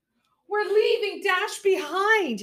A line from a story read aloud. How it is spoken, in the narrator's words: wailed